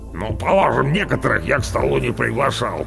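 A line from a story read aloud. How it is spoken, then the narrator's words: Grumbling. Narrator (Russian): проворчал Орвар, большое брюхо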